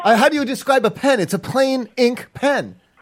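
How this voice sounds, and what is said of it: Raised, loud, irritated voice. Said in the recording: “if you keep raising your voice at me”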